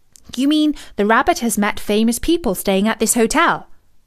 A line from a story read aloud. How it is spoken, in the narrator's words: asked Milo, even more eagerly